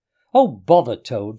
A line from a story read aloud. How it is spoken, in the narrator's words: said the rat savagely